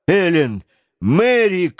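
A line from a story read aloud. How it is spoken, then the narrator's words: Shout. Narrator (Russian): крикнул Гленарван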